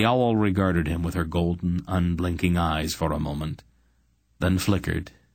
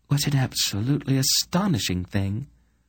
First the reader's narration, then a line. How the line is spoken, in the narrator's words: Queen Layla gasped